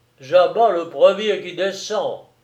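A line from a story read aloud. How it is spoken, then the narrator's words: Growled. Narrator (French): gronda-t-il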